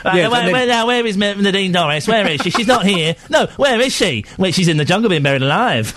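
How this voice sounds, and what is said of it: Impression of a radio presenter. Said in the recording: “Is that your impression of me? ... It needs a bit of work, but it's close. It's not bad. ... That doesn't sound anything like me.”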